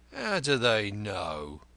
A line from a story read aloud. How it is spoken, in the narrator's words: he murmured